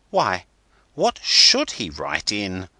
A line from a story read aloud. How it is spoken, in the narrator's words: as he exclaimed